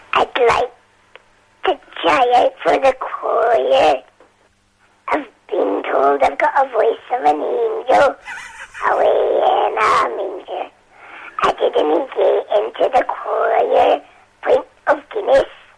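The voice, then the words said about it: Impression of Edith from Still Game. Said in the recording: “doing an impression of Edith from Still Game”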